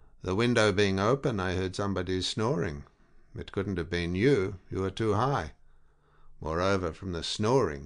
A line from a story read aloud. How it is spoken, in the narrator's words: he added grimly